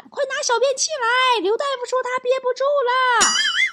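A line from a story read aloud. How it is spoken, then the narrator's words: Howling yell. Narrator (Chinese): 老王嗷嗷喊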